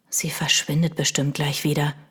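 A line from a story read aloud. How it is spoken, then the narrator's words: Whispered. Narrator (German): flüsterte Milo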